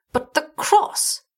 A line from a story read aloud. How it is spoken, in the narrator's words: cried Gahira